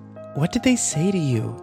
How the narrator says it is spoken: Kimber asked nervously

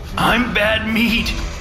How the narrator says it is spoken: he said, managing a little laugh at the end

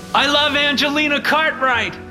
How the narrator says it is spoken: Mitchell shouted again

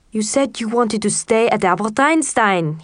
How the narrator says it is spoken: he kind of yelled

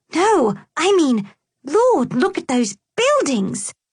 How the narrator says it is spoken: Victoria cried out

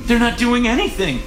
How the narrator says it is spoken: she gasped

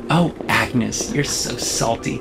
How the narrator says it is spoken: Jessica says and laughs

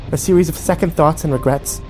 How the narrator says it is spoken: She snapped

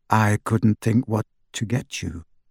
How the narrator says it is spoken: she said

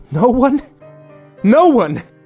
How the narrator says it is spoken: she yelled

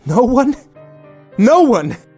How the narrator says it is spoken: she yelled

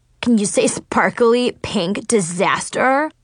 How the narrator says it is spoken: Chloe laughed so hard she was snorting

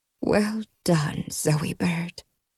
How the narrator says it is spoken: Grandma Redbird said softly

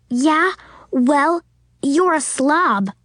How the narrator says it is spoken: Suzanne snapped back at him

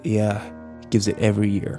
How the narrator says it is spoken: Kyle muttered

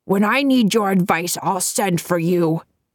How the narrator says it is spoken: he said testily

